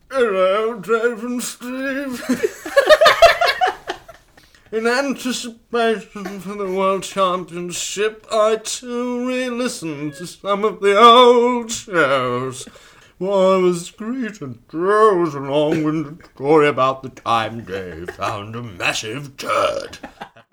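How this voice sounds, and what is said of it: Put-on generic letter-reading accent. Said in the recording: “the generic accent we use for correspondence”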